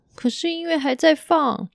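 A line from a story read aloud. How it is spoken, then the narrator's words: Girl crying. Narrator (Chinese): 女孩又哭着说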